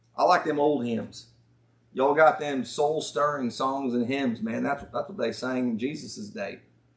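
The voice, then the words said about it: Put-on Southern US accent. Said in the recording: “I talk with a southern accent when I do this stuff. I can't help it.”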